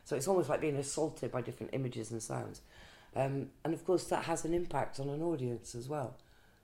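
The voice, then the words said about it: Sore, short-of-breath voice. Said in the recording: “you can already hear my voice. My voice is really sore ... my breath is getting shorter and shorter”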